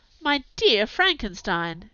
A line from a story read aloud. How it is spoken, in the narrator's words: exclaimed, when she perceived me weep with bitterness